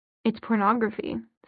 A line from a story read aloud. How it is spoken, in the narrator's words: said Sebastian